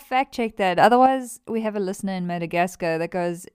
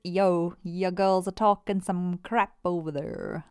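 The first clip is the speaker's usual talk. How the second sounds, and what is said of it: Put-on unidentified accent. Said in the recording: “That's not their accent. I don't know what accent that was.”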